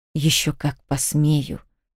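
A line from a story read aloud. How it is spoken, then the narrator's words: Father hissing. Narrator (Russian): прошипел отец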